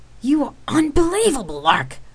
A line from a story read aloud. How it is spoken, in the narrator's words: Rain snapped angrily